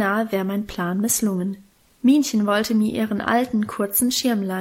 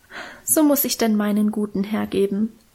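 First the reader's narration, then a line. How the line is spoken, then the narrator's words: Moved sigh. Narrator (German): seufzte Minchen und schien selber gerührt von ihrer Opferbereitschaft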